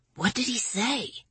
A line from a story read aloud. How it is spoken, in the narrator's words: Lawrence whispered